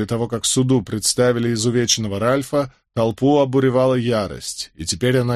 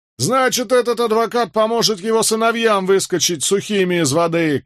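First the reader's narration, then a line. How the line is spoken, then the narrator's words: Shouted. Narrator (Russian): крикнул кто-то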